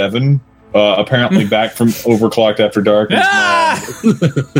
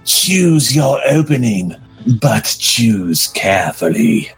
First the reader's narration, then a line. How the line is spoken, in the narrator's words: Damon said menacingly and laughed